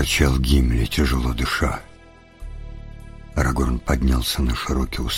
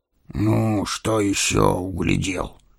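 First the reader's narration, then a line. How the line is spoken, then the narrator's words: Displeased grumble. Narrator (Russian): недовольно проворчал Гимли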